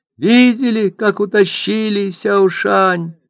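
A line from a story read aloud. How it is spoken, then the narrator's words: Tearful asking. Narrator (Russian): спрашивали они сквозь слезы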